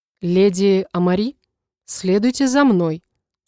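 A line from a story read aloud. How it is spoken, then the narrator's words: Calm. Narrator (Russian): спокойно произнес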